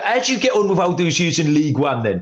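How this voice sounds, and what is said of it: Put-on Cockney accent. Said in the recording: “apologise for the accent as well. He wasn't from Bangladesh. That was a Cockney accent I was doing there.”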